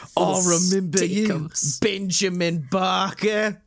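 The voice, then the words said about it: Imitates another person's voice. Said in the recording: “He goes so Jason Statham on it. He goes full Stakeums”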